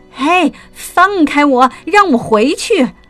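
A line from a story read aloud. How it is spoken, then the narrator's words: Loud struggling shout. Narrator (Chinese): 波波熊大声喊着，使劲的挣扎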